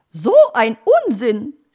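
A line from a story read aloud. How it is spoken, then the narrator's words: Magpie calling. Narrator (German): rief die Elster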